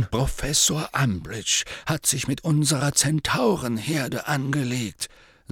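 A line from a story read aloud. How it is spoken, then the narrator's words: Plain. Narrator (German): sagte Dumbledore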